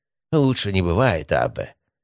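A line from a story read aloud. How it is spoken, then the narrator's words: Humble sigh. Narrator (Russian): смиренно вздохнул звонарь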